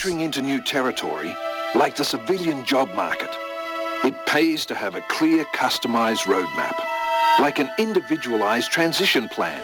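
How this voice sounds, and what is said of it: Australian-accented voiceover. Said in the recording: “Why do they have an Australian accent? ... they got an Australian person ... a little bit of Crocodile Dundee action”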